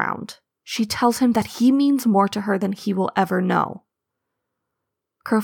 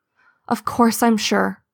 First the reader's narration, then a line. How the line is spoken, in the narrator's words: Leafpool says, her voice ragged with exhaustion and grief